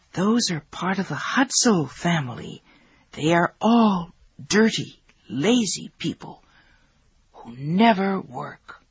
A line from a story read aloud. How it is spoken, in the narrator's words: whisper